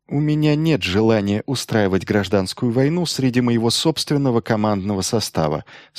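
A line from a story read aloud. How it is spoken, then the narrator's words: Calm remark. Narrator (Russian): спокойно заметил Майлз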